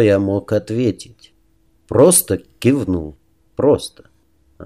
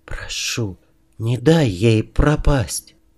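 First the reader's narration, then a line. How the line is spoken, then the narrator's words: Whispered. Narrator (Russian): Она перед казнью шепнуть мне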